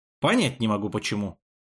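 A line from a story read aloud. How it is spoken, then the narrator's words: Snapped. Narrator (Russian): огрызнулся Амир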